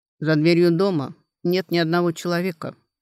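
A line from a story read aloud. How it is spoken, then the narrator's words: Calm. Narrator (Russian): спокойно сказал Кун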